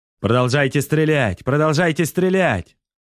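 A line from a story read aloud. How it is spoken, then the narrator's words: Repeated hoarse shouting. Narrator (Russian): кричал Варен снова и снова, пока не охрип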